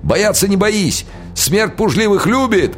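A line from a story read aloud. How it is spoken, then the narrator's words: Yelling. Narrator (Russian): орал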